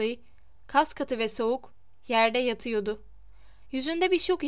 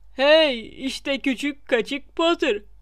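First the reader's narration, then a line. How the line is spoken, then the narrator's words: Crisp cackling laugh. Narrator (Turkish): diye gevrek gevrek güldü Peeves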